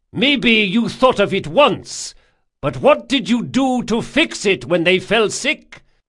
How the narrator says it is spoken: shouted

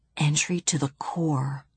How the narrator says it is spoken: whispered Bibi

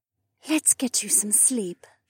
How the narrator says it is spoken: she breathed in my ear

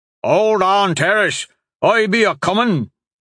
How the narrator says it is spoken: the big seaman hollered

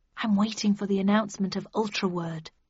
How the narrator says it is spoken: I hissed

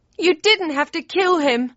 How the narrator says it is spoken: wailed

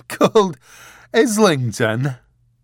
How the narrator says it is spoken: said, giggling helplessly

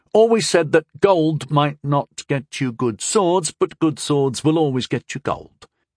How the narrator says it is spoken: Dolwyn said slowly

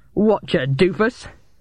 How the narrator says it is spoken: bellowed

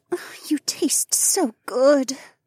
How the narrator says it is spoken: Becca murmured

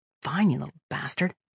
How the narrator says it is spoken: Kira muttered

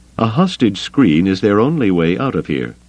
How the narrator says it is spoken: he said

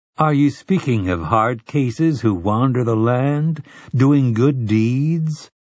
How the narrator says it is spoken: Telford asked in a gently mocking voice

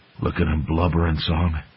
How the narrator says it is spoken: Dippler whispered

